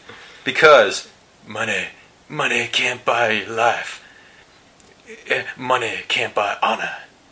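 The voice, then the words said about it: Imitates another person's voice. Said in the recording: “my Steven Seagal impression... you actually deliver with much more conviction, yeah, and emotion, heart than the real...”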